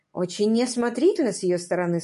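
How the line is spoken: Plain. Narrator (Russian): сказала она

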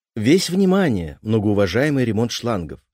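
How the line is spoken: Plain. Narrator (Russian): ответил я

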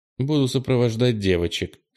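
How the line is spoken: Dry. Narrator (Russian): сухо ответила она

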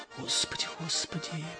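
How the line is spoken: Elderly woman whispering. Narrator (Russian): прошептала пожилая баба

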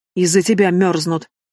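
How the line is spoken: Gnome's growl. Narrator (Russian): рыкнул на Антуана гном

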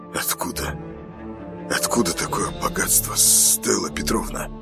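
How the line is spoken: Hoarse. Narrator (Russian): хрипит он

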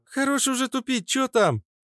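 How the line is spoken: Exclaimed. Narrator (Russian): воскликнула

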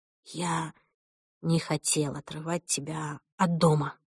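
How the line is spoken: Whisper. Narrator (Russian): прошептал он

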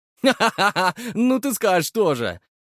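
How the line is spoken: Laughing. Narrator (Russian): рассмеялся его товарищ

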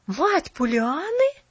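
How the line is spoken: Surprised exclamation in unison. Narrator (Russian): в один голос воскликнули удивленные Керри

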